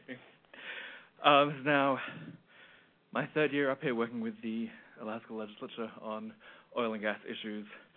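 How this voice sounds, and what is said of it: Slightly out of breath. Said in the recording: “I'm a little out of breath”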